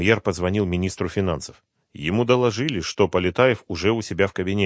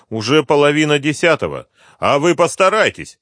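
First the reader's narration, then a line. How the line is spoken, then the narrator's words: Shouted. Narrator (Russian): крикнул премьер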